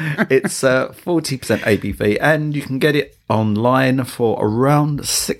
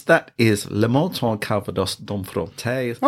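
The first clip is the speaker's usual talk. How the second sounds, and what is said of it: Put-on French accent. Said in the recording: “that really did sound French.”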